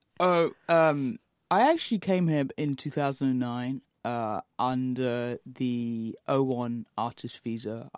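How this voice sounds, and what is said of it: English accent. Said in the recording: “haven't got the American twang just yet, but, you know, it's that English”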